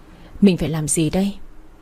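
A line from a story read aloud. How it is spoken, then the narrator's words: Sighing. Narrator (Vietnamese): Chị thở dài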